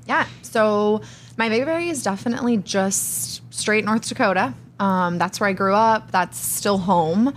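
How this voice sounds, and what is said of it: Slight North Dakota accent. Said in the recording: “Can hear the accent a little bit. ... Yeah, yeah. It's there.”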